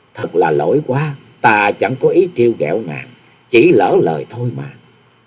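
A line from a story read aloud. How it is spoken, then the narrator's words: Smiling apologetic. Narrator (Vietnamese): Nhậm Xưng Bạch nuốt vội miếng thịt ở trong miệng, chàng mỉm cười nói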